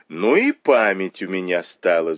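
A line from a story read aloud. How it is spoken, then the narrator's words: Laughing. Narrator (Russian): засмеялась Тань Чунь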